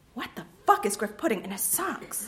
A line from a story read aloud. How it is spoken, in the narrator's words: Simmons mutters